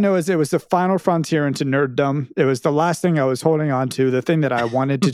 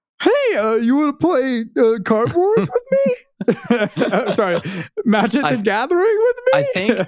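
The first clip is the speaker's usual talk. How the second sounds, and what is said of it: Impression of a friend's voice. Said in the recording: “doing his typical Ned. I'll do a Ned impression real fast.”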